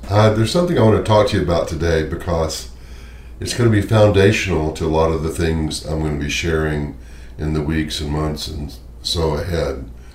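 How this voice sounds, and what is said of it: Hoarse, deeper laryngitis voice. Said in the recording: “Excuse my voice. I'm having a little bit of a laryngitis issue, but somehow I think it makes me sound more spiritual, so this sort of deeper tone”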